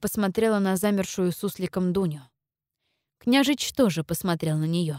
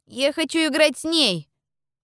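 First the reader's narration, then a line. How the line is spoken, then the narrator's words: Loud declaration. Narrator (Russian): громко заявил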